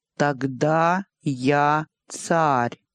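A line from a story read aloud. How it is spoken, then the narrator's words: Slow. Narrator (Russian): медленно произнес он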